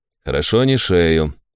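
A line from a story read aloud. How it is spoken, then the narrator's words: Calm statement. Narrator (Russian): спокойно констатировал отец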